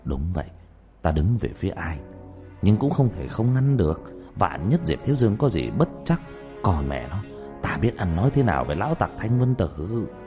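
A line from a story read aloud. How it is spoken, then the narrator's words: Muttering. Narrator (Vietnamese): Trương Vô Sanh ... lẩm bẩm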